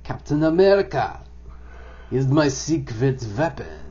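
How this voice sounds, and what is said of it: Bad German-accented villain voice. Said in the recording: “That was the very bad Hugo Weaving impression ... My German is way off tonight. I can do a better German.”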